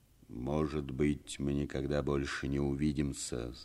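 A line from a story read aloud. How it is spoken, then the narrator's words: Plain. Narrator (Russian): сказал он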